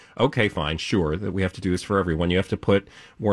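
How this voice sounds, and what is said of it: Usual voice. Nothing is said of it.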